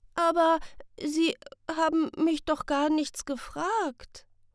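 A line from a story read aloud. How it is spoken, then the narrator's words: Stammering. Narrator (German): stammelt Sam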